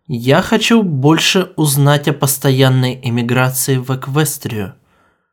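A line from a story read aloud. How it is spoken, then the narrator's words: Loud. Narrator (Russian): скажите громко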